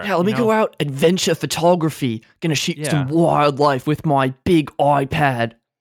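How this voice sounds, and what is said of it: Put-on Australian accent. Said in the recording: “that great Australian impression.”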